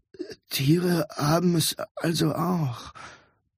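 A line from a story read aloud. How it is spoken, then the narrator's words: Muttered to himself. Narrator (German): murmelte vor sich hin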